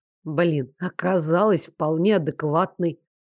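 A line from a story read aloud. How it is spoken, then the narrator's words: Whispering group. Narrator (Russian): шептался отдел продаж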